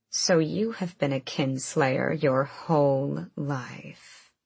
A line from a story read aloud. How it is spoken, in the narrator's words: her grandmother purred